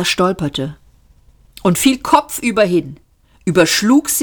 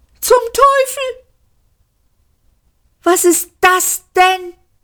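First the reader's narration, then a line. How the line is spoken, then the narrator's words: Shrieking. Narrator (German): kreischte er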